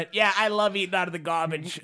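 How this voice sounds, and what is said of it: Impression with Italian accent. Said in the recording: “I don't know why he's Italian, too. All my impersonation.”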